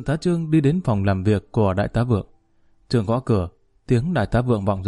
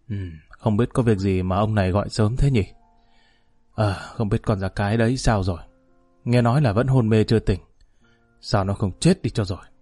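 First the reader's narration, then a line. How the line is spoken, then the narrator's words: Muttering. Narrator (Vietnamese): Trương lẩm bẩm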